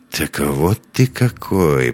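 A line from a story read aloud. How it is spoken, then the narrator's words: Mutter. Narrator (Russian): пробормотал Лекс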